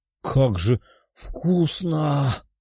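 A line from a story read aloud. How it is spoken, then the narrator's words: Ecstatic pleasured murmur. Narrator (Russian): с наслаждением в голосе, будто она испытывает оргазм, пробормотала Лиза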